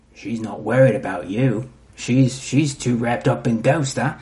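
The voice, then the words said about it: Put-on character accent. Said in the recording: “You work on that accent? Pretty good. ... It's pretty good.”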